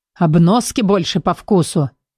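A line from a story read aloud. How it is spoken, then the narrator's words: Growl. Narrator (Russian): прорычал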